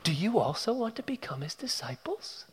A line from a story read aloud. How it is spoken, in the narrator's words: It's a taunt, he's teasing